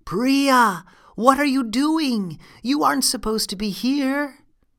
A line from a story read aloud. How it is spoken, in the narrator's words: her friend Soli saw her and called out